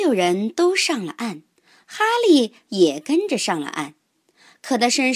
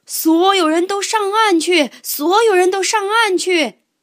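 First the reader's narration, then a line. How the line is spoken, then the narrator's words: Urgent shout. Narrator (Chinese): 救生员听到呼救声，大喊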